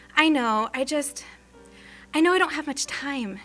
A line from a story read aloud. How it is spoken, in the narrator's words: she sighed, with the worry creasing her face